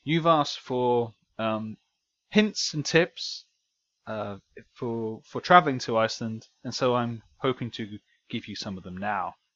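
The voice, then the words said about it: Mock BBC news reporter voice. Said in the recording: “I sound like a BBC reporter there. ... just a not very good one.”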